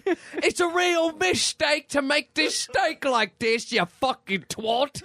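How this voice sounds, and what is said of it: Put-on cockney accent. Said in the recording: “We're not even doing the right accent, are we? That's so not Gordon Ramsay ... Fucking cockney-ass Gordon Ramsay.”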